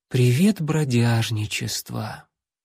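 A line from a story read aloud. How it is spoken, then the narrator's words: Sighing, barely audible. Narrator (Russian): Парнишка вздохнул и еле слышно произнес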